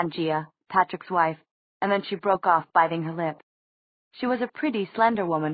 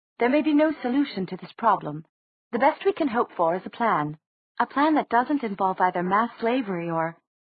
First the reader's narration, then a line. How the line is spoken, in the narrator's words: said Nazreen in her clipped accent